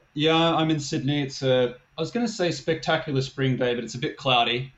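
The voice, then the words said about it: Slight Australian accent. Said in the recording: “You in Australia? You got a little bit of an accent there.”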